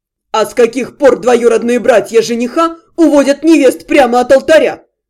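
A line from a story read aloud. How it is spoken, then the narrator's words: Snapping back. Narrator (Russian): Огрызнулся Дальшер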